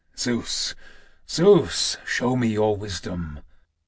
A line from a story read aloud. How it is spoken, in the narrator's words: Kratos, muttering through his teeth